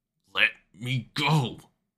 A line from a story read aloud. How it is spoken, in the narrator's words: Gilok roared, straining against Sokka's blunt-bending hold